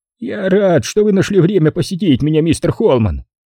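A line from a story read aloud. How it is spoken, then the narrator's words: Shrill, feigned friendliness. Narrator (Russian): произнес он визгливым, якобы приветливым голосом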